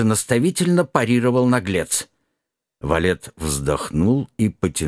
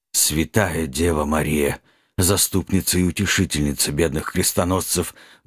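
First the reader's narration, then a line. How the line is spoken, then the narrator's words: Muffled breathy utterance. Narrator (Russian): глухо выдохнул в темноту Нед Гамильтон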